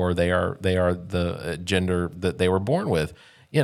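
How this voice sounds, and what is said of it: Usual voice. Nothing is said of it.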